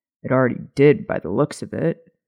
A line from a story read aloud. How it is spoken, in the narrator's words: Remus muttered